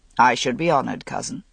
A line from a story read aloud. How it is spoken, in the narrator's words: Lancelot said gravely